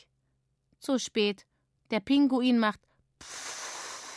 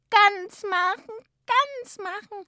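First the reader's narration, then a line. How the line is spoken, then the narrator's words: Tearful shriek. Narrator (German): kreischt Sissi, dicke Tränentropfen auf den Gummifetzen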